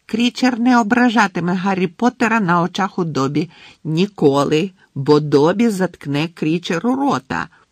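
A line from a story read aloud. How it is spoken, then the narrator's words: Shrill squeal. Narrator (Ukrainian): пронизливо верещав Добі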